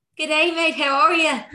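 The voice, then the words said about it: Put-on Irish sitcom-style accent. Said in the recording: “I don't know what accent I'm doing right now, but I'm doing something. ... You sound like someone from like a sitcom. ... I sound like I'm from Father Ted, maybe. ... this Irish accent”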